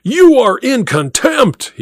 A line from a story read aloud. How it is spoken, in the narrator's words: roared